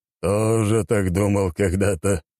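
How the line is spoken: Wry snort. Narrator (Russian): хмыкнул Игорь Юрьевич

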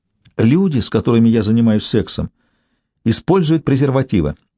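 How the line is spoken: Sharp retort. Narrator (Russian): резко бросила Мэгги

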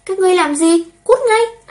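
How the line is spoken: Frightened cry. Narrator (Vietnamese): sợ hãi kêu lên

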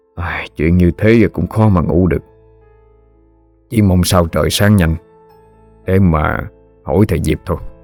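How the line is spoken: Old man sighing. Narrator (Vietnamese): Ông thở dài nói

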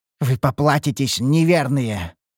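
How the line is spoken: Growled. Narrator (Russian): рыкнул темный

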